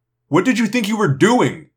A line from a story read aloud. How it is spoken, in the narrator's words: He yelled